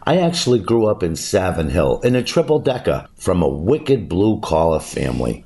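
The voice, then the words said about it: Genuine Boston accent. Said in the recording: “the Boston accent ... my accent is legit, and this is how I talk.”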